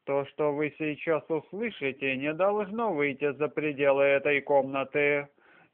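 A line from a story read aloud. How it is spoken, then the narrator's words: Low, quiet voice. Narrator (Russian): негромким голосом начала она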